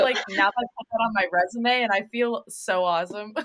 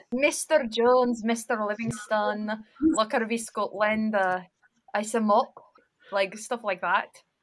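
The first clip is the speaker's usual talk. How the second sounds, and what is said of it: Put-on Scottish accent. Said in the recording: “I kind of miss your accents ... I love that accent so much. It was hard though ... forget to do the accent ... Is she Scottish?”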